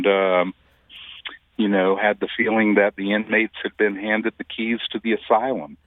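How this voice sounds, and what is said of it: Non-local regional accent. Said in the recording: “I can tell from your accent, um, you are not a native.”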